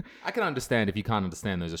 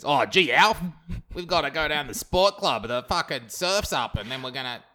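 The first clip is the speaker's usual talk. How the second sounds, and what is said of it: Put-on Australian accent. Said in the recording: “those Australian accents.”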